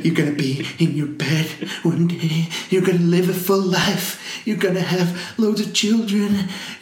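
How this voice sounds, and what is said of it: Imitates a film character's voice. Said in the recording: “Good impression, that, innit?”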